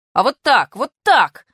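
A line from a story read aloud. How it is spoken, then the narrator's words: Indignant shout. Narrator (Russian): возмущенно закричал я на Фокину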